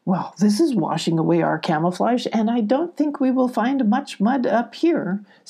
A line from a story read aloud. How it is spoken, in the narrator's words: Sylvie said, giggling a bit